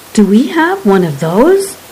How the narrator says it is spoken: Cromlech gasped

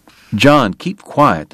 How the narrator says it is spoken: the doctor snapped

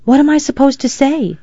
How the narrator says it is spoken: Samantha whispered to Maddie

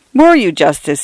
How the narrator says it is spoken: he exclaimed

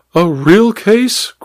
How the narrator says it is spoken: cried the Duchess

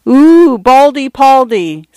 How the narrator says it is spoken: some idiot girl had exclaimed

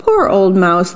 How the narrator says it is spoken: they said

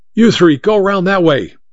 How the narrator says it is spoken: Mike shouted

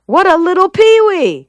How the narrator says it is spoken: shouted

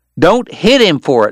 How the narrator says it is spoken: Wyatt yelled

